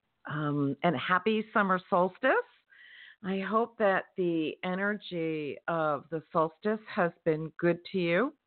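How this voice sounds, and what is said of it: Raspy, slightly worn voice. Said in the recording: “My voice is a little bit raspy ... I think I talked a bit too much”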